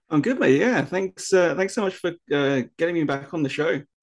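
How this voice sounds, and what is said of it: British accent. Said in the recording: “someone with a British accent”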